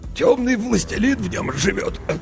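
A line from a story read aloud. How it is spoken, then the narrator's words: Hoarse official's voice. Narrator (Russian): хрипло сообщил градоправитель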